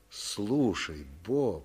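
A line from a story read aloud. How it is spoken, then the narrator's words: Soft speech. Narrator (Russian): мягко сказал Билли Вуд, секретарь чернорабочих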